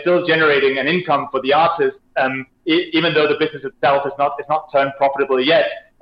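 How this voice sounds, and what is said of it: Danish accent. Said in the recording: “I can tell by your accent that you are clearly and were born in Denmark, and that's where your accent's from”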